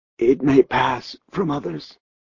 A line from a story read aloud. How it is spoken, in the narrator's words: a voice whispered